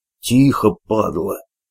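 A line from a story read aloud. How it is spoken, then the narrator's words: Hissing. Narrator (Russian): прошипел Толян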